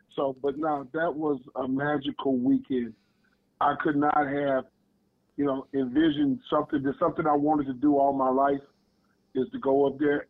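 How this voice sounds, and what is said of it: Hoarse, strained voice. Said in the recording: “I'm losing my voice, so I apologize to you. ... I done yelled enough out there on the football field where I've lost my voice.”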